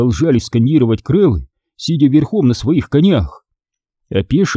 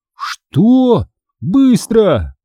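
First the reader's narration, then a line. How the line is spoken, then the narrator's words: Shout. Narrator (Russian): крикнул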